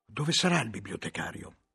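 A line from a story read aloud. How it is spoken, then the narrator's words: Whispered. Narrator (Italian): sussurrai a Guglielmo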